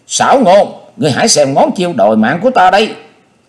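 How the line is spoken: Shriek. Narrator (Vietnamese): Quyết Lan đồng tử thét lên

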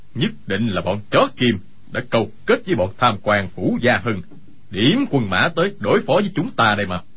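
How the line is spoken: Angry. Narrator (Vietnamese): Dương Sự Nhất tức giận nói

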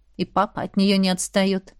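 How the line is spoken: Sighing. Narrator (Russian): вздохнула сестра

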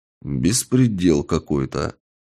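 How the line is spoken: Muttered. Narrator (Russian): пробормотал я

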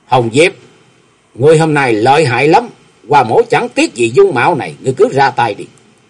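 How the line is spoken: Calm thin smile. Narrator (Vietnamese): chàng trấn tĩnh cười nhạt nói

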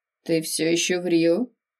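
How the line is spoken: Gloomy statement. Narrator (Russian): мрачно констатировал факт Рафаэль

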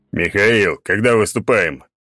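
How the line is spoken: Deep bass voice. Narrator (Russian): пробасил Черномор

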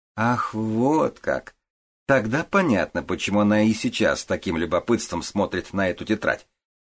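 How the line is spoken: Joking, laughing. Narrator (Russian): пошутила Хунцуй и, смеясь

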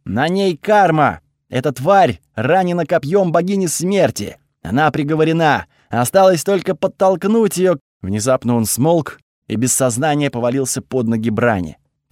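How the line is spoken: Shouting. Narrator (Russian): выкрикнул

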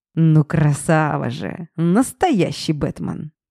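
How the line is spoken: Old man's amused grunt. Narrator (Russian): хмыкнул дед

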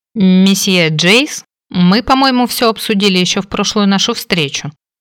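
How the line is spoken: Angry. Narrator (Russian): сердито проговорила

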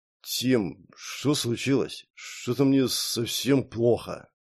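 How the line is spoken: Puzzled mutter. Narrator (Russian): с недоумением пробормотал громила

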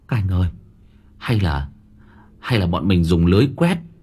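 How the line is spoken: Trembling boy. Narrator (Vietnamese): Thằng Tùng nó run run một hồi, rồi nó bảo

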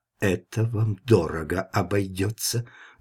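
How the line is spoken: Ominous whisper. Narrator (Russian): зловеще прошептал он

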